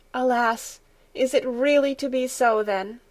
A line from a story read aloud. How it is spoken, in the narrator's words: sighed the grandmother